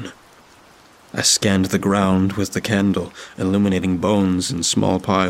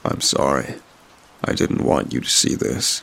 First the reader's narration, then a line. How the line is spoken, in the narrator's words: he said solemnly